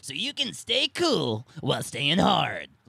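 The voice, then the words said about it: Imitates another person's voice. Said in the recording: “my Tanzi impression”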